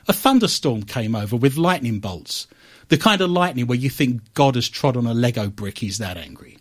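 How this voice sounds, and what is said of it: Usual voice. Nothing is said of it.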